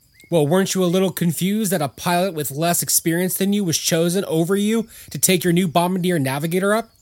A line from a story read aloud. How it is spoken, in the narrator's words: asked the boss